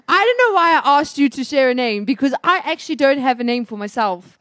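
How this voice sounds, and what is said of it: Put-on British accent. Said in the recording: “I'm just doing a British accent.”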